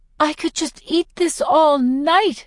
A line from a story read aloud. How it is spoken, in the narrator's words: exclaim